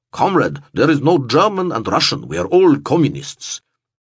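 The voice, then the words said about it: Mock Russian accent. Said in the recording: “He mimicked a Russian accent while explaining this”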